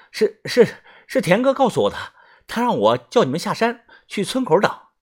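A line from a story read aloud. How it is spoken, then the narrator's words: Breathless young man. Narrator (Chinese): 年轻人喘着气说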